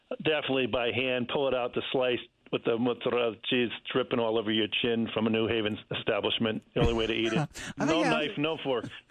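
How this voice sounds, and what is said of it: Put-on Italian accent. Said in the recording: “You put on a little Italian accent. ... You sound Transylvanian, actually. Yeah, I don't know what that was.”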